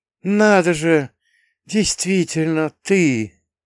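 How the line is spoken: Boy breathes out. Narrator (Russian): снова выдохнул пацан

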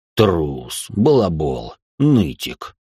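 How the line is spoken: Deep bass voice. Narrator (Russian): пробасил Рэй

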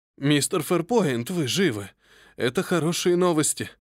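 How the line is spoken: Joyful exclamation. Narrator (Russian): Радостно воскликнул аббат

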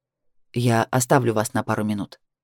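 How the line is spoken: Doctor speaking quietly. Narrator (Russian): тихо произнес мой доктор

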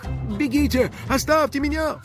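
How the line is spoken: Pleading. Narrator (Russian): взмолился он

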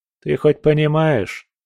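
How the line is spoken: Calm. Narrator (Russian): сказал я спокойно

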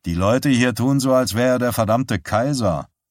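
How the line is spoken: Caretaker growling. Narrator (German): knurrte der Hausmeister

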